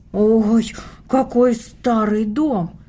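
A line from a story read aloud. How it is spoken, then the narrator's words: Exclamation. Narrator (Russian): воскликнула Таня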